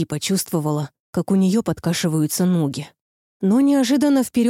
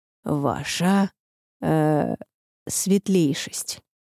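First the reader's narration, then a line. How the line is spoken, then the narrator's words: Hesitant. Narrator (Russian): заговорил ... неуверенно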